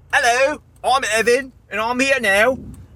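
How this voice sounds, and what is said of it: Fake British accent, imitates another person's voice. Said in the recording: “I'm doing the British accent ... my fake Evan doing a British accent ... me doing an impression of Evan”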